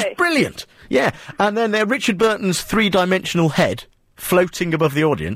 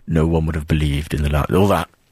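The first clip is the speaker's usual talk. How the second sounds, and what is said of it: Poor Richard Burton impression. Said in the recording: “that's not a very good impression of Richard Burton”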